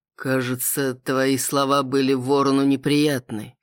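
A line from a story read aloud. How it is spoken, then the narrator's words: Muffled voice. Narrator (Russian): глухим голосом произнес Киан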